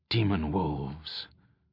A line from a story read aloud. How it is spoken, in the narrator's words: Al-Anon spoke the name quietly